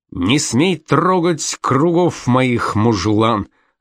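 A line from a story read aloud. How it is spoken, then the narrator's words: Irritated shouting. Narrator (Russian): раздраженно кричал греческий геометр Архимед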